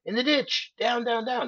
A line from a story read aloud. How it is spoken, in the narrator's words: one of them screams